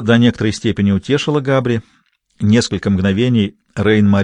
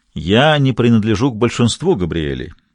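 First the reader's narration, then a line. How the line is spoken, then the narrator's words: Plain. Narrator (Russian): сказал Габри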